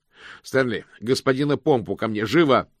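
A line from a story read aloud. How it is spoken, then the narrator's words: Muffled shout. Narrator (Russian): крикнул мокрец, но колпак на голове был слишком плотным и тесным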